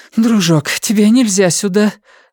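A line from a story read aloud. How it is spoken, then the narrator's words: Breathed out. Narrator (Russian): выдохнула Карен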